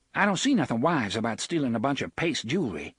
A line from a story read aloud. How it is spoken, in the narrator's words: she said sharply